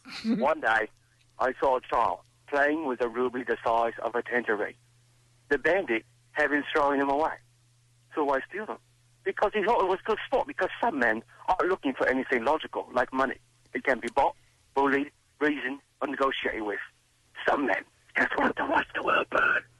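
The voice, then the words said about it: Michael Caine impression. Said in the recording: “Who's your impression? ... I got Michael Caine.”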